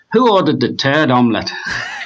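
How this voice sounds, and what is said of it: Poor put-on Irish accent. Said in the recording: “I'm going to do a very poor Irish accent here”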